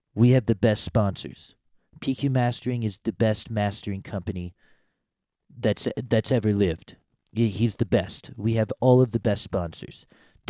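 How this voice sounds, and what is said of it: Imitates another person's voice. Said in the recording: “What if I do the Trump thing? Has that been overdone? ... That might have been kind of crappy. I feel like there's so many good Trump impersonations that one wasn't.”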